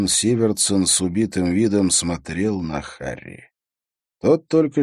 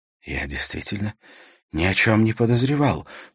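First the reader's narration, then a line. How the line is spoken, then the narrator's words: Whisper. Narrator (Russian): прошептал Сивертсон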